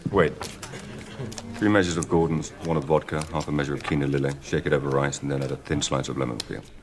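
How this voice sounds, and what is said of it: English accent, less posh. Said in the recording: “Daniel Craig, who also has an English accent, but it is less posh than Roger Moore's”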